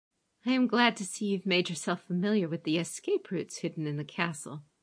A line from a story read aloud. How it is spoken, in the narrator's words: Hotaru said dryly